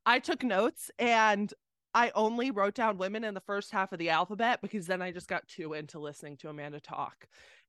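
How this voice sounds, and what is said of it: Hoarse, fading voice. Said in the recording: “oh God, I'm losing my voice.”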